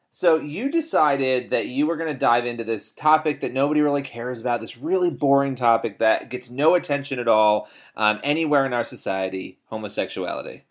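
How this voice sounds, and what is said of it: Sarcastic, mock-serious delivery. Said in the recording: “I'm being sarcastic.”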